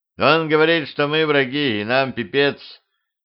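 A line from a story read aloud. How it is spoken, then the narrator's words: Grim. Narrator (Russian): мрачно произнес он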